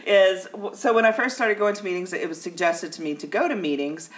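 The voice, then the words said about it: Southern American accent. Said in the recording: “the southern accent”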